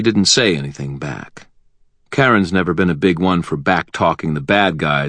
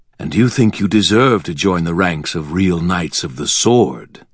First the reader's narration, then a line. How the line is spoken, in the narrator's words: Nicodemus said, his voice smooth and confident